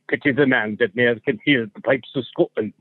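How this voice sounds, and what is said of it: Fairly accurate put-on Scottish accent. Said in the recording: “That was actually pretty accurate. ... That is so much better than Amy's attempt at a Scottish accent”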